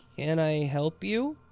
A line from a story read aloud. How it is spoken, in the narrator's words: managed to stammer out